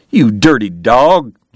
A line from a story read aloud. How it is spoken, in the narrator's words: James cried